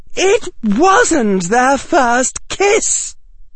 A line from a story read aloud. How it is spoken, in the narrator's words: shouted Daphne